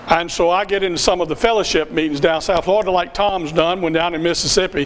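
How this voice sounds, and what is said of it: Southern US accent. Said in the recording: “I'm from the South. There's no denying that. You can hear that from my accent.”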